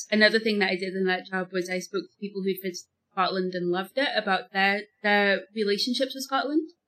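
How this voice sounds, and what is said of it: Strange Liverpool accent. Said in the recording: “I'm actually originally from Liverpool, which is why I've got such a strange accent.”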